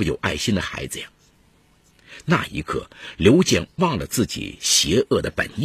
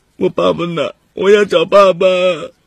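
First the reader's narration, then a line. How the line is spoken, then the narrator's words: Crying. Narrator (Chinese): 欢欢哭了起来，说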